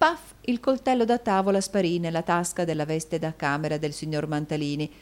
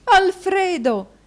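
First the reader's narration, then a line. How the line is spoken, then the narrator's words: Wife exclaiming. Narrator (Italian): esclamò la moglie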